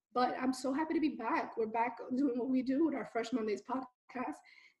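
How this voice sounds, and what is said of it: Hoarse voice cutting in and out. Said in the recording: “I apologize for my voice. You're going to hear it hopping in and out ... why my voice is so hoarse”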